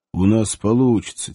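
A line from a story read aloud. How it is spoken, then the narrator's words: Quiet answer. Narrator (Russian): тихо ответил он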